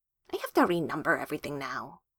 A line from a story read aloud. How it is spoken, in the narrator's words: she mutters